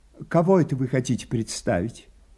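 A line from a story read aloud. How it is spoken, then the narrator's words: Quiet question. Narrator (Russian): тихо спросила Лизавета Ивановна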